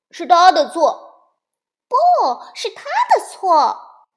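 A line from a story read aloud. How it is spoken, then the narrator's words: Loud squabbling. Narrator (Chinese): 小熊哥哥和小熊妹妹 大声的嚷嚷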